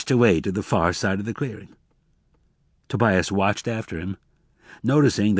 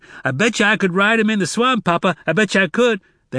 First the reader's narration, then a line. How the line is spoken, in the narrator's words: He shouted